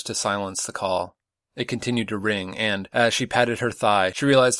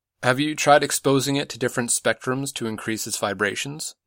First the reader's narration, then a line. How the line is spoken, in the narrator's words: asked